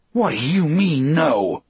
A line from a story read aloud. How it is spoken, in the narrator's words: He asked me furiously